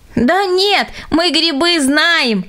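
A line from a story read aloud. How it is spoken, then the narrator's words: Children laughing. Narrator (Russian): засмеялись дети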